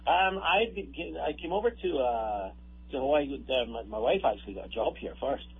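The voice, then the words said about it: Scottish accent. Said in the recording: “I detect an accent, sir. ... I was born in Scotland. ... We can tell.”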